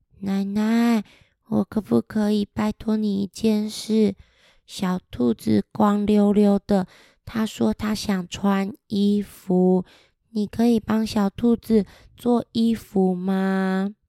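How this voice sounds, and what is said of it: Quiet whispered voice. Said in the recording (Chinese): “悄悄话 ... 很小声”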